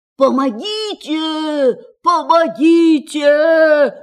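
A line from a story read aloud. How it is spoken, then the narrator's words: Shouting. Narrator (Russian): закричал он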